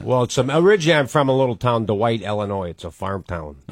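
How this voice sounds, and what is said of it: Chicago accent. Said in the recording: “You just got a great Chicago accent.”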